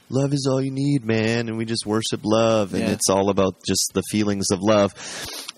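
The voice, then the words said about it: Laid-back hippie voice. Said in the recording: “it's kind of like a hippie ... That was my hippie impression.”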